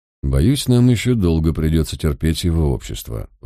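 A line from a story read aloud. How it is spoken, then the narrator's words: Sighing. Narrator (Russian): вздохнул я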